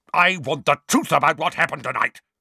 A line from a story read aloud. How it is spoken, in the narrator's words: barked Uncle Vernon